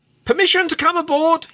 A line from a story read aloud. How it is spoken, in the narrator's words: he cried jocularly